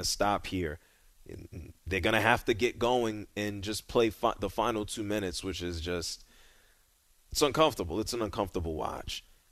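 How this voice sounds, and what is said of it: Voice sounds rough and unwell. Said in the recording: “you don't sound good ... my voice is still crap”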